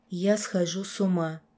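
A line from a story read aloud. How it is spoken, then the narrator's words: Tearful whisper. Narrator (Russian): прошептала я, чувствуя, что сейчас просто заплачу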